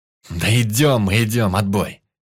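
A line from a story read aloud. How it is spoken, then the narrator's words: Angry bark. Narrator (Russian): В сердцах рявкнул Бобер-младший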